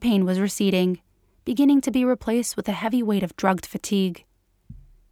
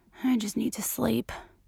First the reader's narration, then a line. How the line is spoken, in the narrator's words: Eyes closing, Dana mumbled